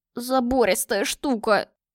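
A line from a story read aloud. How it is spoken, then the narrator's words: Hoarse wheeze, teary. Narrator (Russian): просипел он, вытирая слезы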